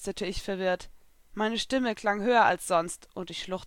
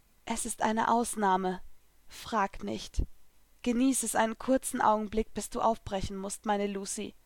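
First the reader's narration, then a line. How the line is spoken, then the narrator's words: Soft. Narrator (German): sagte sie leise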